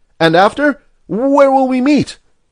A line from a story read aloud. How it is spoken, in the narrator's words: Lenehan called out